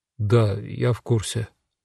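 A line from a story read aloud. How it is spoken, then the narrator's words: Quiet reply. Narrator (Russian): Витя, продолжая зачарованно смотреть, тихо ответил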